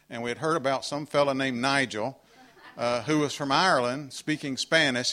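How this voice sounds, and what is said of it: Southern United States accent. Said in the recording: “my southern United States accent”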